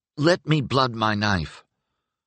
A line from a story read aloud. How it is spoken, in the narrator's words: a bleary sat up in his bedroll and begged